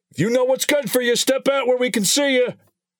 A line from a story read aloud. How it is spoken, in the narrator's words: Officer Metcalf shouted